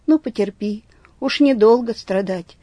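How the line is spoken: Old man, gently. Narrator (Russian): ласково старец промолвил

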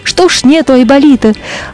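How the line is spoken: Angry, elephants and rhinos. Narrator (Russian): слоны и носороги, и говорят сердито

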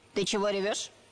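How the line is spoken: Stern question. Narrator (Russian): Строго спросила муха

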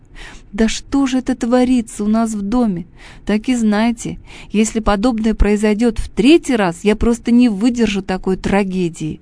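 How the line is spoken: Sobbing lament. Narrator (Russian): расстроенная салатница всхлипывала, причитая

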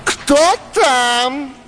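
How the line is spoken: Alarmed woman shouting. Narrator (Russian): закричала кумова жена, услышав шум в сенях

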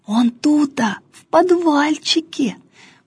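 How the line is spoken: Secretive whisper. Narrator (Russian): потаенным шепотом объяснял Филиппка

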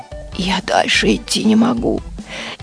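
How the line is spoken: Whisper. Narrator (Russian): чайник шепнул утюгу

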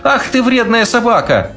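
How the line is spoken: Shout. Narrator (Russian): закричала Женя

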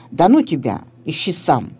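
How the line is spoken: Angry deep bass. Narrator (Russian): Филька отвечал сердитым басом

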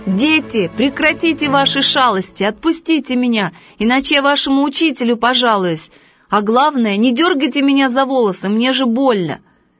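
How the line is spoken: Shout. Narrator (Russian): Он закричал

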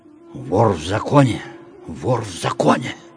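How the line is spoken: Respectful whispers. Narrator (Russian): уважительно зашептали наши баскетболисты

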